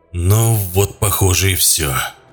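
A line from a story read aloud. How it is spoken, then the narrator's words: Hoarse rasp. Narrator (Russian): прохрипел Пит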